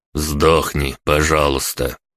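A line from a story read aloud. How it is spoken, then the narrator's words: Serious tone. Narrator (Russian): серьезным тоном сказал Кузнецов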